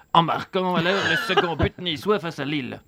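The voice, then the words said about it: Put-on Belgian French accent. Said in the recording (French): “faire l'accent belge ... la suite en ah, accent belge”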